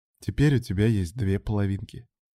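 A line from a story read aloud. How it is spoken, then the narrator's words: Smiling, playful. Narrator (Russian): Лорейн улыбнулась, сказала, глядя на мужа с искорками в глазах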